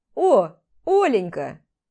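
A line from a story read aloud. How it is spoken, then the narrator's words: Cheerful chuckle. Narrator (Russian): Хмыкнул весело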